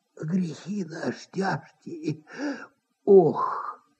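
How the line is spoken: Sighing whisper. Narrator (Russian): вздохнул и даже как будто прошептал

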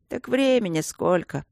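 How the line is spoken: Sleepy voice. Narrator (Russian): сонно сказал кто-то

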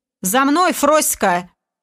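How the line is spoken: Haughty shout, boorish man. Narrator (Russian): надменным голосом выкрикнул мужлан

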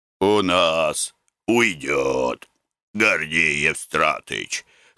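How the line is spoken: Hoarse reply. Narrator (Russian): хрипло ответил подрядчик

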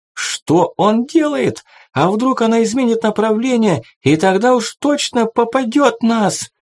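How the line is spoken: Shrill, squealing voice. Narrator (Russian): раздался чей-то взвизгивающий голос

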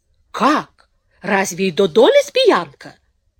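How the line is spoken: Indignant snort. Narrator (Russian): возмущенно фыркнула

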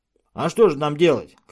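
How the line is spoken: Shouted. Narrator (Russian): крикнул Томас

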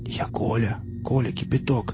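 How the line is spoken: Whispering. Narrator (Russian): зашептал сосед

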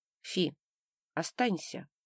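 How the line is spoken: Quiet request. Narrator (Russian): тихо попросил

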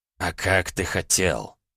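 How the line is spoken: Moved grumble. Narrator (Russian): буркнул растроганно бог

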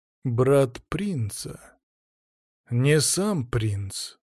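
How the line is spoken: Lazy exhale, hidden disappointment. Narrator (Russian): Лениво выдохнул я, скрыв разочарование, вулканом взорвавшееся в груди

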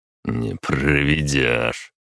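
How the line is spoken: Snort. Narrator (Russian): хмыкнул

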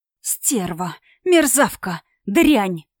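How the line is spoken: Hissing under breath. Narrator (Russian): шипела я про себя

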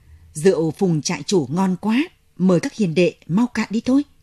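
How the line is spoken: Booming hearty voice. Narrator (Vietnamese): khà một tiếng lớn, cất giọng oang oang

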